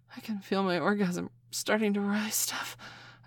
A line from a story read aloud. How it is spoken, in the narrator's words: I panted